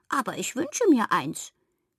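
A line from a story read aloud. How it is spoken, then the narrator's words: Squeaky toy voice. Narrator (German): piepste das Kuschelschwein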